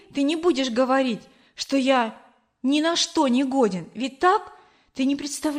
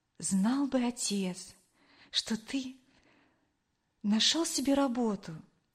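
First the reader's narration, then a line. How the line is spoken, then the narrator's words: Quiet. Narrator (Russian): тихо произнесла она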